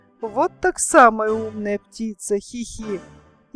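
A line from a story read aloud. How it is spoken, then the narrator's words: Thin little voice. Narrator (Russian): тоненький голосок сказал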